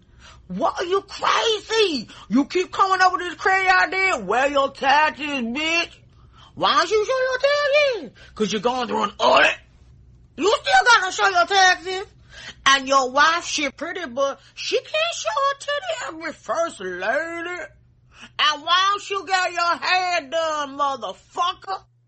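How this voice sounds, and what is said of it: Terrible stereotyped impression voice. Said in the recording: “terrible racist impression”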